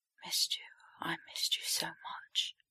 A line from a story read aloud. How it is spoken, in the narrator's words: Potter whispering in Draco's ear